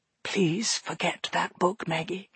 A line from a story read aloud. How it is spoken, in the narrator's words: he whispered